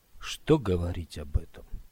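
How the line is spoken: Quiet. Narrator (Russian): тихо промолвил Скотт

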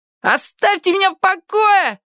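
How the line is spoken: Yelling. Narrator (Russian): орал конфедерат

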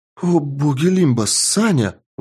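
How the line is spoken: Exclaiming. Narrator (Russian): воскликнула Тесс

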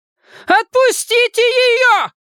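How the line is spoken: Old woman's piercing shout. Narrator (Russian): пронзительно прокричала старушка

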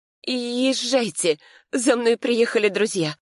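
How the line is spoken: Trembling voice. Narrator (Russian): дрожащим голосом сказала я

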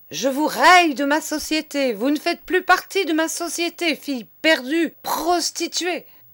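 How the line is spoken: Furious yelling. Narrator (French): vociférait monsieur

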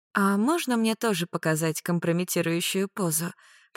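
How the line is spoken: Purring, behind door. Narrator (Russian): промурлыкала девица за дверью

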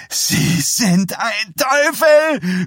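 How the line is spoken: Shouted at someone. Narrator (German): schrie an

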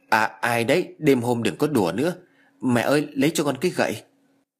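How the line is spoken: Trembling question. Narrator (Vietnamese): Giọng của tôi run rẩy hỏi

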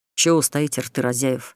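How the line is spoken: Hiss. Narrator (Russian): прошипел Эрик

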